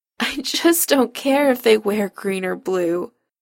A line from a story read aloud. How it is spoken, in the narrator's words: Chris whines into Adam's neck